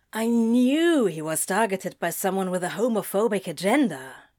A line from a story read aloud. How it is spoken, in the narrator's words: Crowley said, hissing